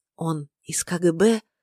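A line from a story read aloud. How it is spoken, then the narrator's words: Whisper. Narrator (Russian): прошептала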